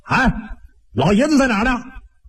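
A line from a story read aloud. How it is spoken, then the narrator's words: Shout. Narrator (Chinese): 其中有一个人就喊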